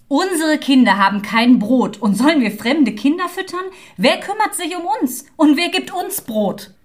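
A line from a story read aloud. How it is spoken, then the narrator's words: Angry mocking shout. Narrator (German): Aber sie ließ sich nicht besänftigen, sondern höhnte ihn und sprach zornig und rief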